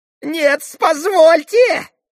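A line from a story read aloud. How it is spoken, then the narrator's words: Shrill interruption. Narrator (Russian): визгливо перебил Федор Павлович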